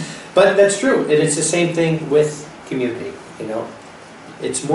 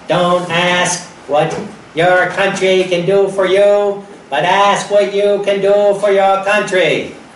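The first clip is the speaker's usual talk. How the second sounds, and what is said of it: Put-on Boston accent. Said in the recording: “Putting on my Boston accent there.”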